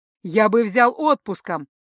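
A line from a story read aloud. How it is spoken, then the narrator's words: Loud strained reply. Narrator (Russian): Столь же громко ответил покрытый потом от невероятного напряжения духовник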